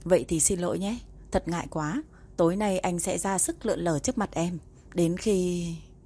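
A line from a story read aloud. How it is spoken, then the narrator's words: Smiling gentle speech. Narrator (Vietnamese): Lục Cách mỉm cười, khẽ cúi người nói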